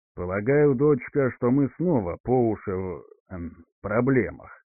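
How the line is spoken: Calmer hissing. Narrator (Russian): уже более спокойно сказал, а точнее прошипел Пхинар

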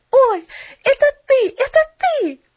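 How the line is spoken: Excited exclamation. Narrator (Russian): воскликнула она

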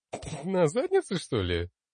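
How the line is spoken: Chuckling laugh. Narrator (Russian): Хохотнул я

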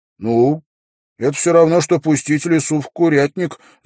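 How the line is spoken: Laughing. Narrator (Russian): засмеялся Уилл

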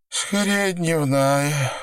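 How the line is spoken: Tired yawning. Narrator (Russian): устало зевнула, выдыхая дым

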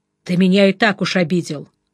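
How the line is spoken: Snorting. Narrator (Russian): хмыкнул ручечник

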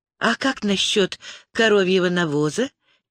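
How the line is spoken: Quiet question. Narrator (Russian): тихо спросила Лиана

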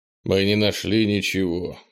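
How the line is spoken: Gloomy elder. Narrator (Russian): мрачно заговорил старейшина

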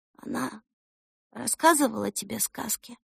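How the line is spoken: Quiet, hopeful question. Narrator (Russian): тихо спросила Эльса в надежде, что ответ будет отрицательным

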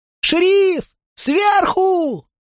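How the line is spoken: Yelled. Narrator (Russian): завопил я

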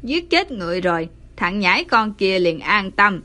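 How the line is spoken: Old man sneering. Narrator (Vietnamese): Lão cười khẩy

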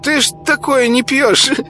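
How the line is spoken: Giggling. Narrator (Russian): хихикнул мешочек

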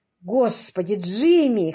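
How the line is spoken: Hoarse with emotion. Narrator (Russian): хриплым от волнения голосом сказал Энтони

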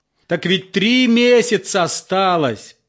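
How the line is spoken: Almost shouting. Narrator (Russian): почти закричал участковый

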